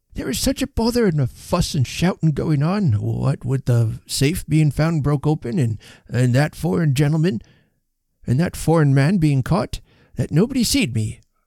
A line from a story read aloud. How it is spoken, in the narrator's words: whimpered the elderly Mr